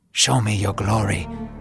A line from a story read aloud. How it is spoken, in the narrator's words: Moses whispered